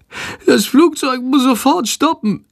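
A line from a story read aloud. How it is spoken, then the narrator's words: Groaning, stomach rumbling. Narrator (German): stöhnt Shandor, und es rumort laut in seinem Bauch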